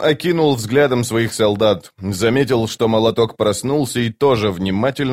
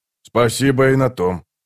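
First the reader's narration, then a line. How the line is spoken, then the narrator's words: Grumbled. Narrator (Russian): проворчал Скворец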